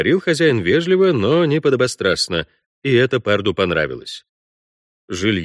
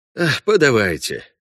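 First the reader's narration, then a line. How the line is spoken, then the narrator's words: Sigh. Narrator (Russian): вздохнул Парт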